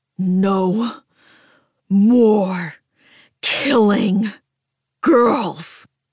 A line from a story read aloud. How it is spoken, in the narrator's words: I growl, a demonic sound that belongs in a nightmare